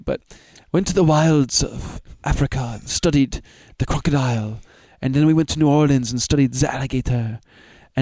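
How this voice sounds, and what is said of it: Put-on unidentified accent. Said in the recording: “I don't know what accent this is I'm doing, but I'm going to do an accent.”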